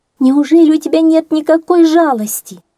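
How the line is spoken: Exclamation. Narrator (Russian): воскликнула она наконец

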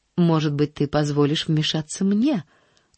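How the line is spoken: Serene tone. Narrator (Russian): начала она самым безмятежным тоном

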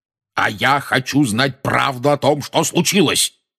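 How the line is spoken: Roaring. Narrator (Russian): проревел дядя Вернон

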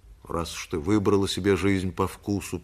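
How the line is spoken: Grumbling farewell. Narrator (Russian): проворчал на прощание Шамет

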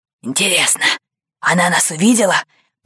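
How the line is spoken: Whisper. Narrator (Russian): прошептал капитан

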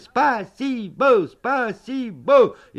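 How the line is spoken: Shouting. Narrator (Russian): мы закричали

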